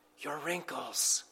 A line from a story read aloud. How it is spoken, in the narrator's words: softly whispered